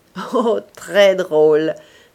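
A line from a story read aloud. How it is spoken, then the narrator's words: Young man laughing. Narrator (French): répondit le jeune homme en riant encore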